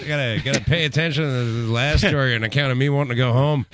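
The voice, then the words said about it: Bad imitation of another person's voice. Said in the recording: “worst Norm McDonald impression ... do bad Norm McDonald”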